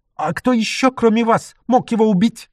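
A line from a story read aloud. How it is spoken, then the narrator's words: Shouting. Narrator (Russian): закричал Лемуан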